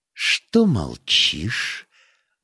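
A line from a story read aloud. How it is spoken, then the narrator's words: Quiet, almost calm. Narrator (Russian): Бавари сказала это тихо, почти спокойно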